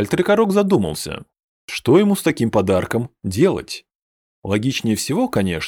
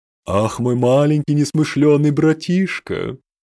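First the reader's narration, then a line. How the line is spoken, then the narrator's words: Tender sigh. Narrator (Russian): Умиленно вздохнул Хальтрикорок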